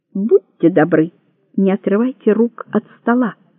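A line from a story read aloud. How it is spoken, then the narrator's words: Clear voice. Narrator (Russian): сказал Кейро ясным голосом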